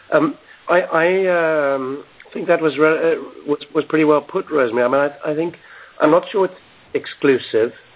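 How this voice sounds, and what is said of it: Husky, hoarse voice. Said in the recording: “excuse my voice. I'm a bit husky from having some kind of problem over the last week or 10 days.”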